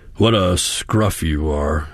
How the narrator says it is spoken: he grunted

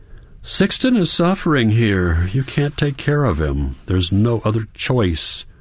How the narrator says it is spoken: Hans continues with a sigh

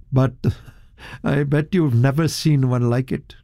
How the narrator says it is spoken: Tomlinson with a chuckle

